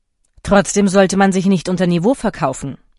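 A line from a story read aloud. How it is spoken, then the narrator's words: Cold. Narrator (German): sagte der Marquis kalt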